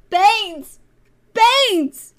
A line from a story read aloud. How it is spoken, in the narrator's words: He screamed